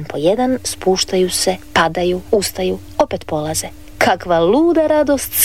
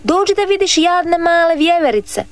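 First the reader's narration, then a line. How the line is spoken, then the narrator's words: Boy shouting. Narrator (Croatian): viknu dječak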